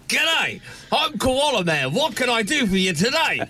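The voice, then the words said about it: Put-on Australian accent. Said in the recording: “you need to do an authentic authentic Australian accent ... that was not too bad ... That's how I would have thought Hugh Jackman would have done it.”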